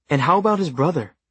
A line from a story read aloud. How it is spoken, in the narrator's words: Beatriz Mendoza exclaimed